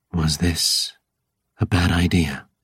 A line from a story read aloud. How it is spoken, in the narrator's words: She rasps